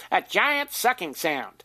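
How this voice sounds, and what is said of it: Imitates another person's voice. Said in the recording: “my best Ross Perot imitation,”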